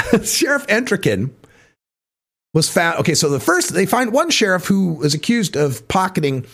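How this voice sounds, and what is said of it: Usual voice. Nothing is said of it.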